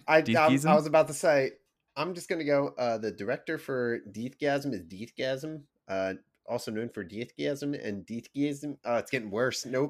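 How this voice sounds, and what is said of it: Accent drifting between New Zealand and Philly. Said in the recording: “You're like jumping ponds between like New Zealand and like a deep Philly accent ... I'm going full New York.”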